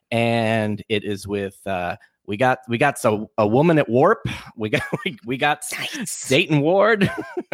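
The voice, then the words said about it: Put-on Brooklyn accent. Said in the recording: “I don't know why suddenly I'm in a Brooklyn accent.”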